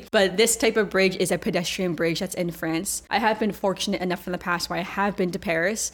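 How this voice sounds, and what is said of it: Heavy American accent. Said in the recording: “Everything's going to be with a heavy American accent”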